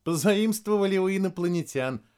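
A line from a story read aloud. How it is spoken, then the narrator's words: Laughing. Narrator (Russian): рассмеялась Вероника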